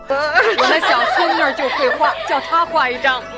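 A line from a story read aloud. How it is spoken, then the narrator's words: Laughing old woman. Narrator (Chinese): 贾母笑道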